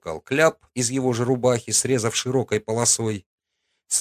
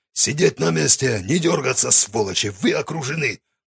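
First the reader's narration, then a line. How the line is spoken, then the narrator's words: Commanding bark. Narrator (Russian): Гаркнул он, и, надо сказать, голос у него прозвучал, как у командира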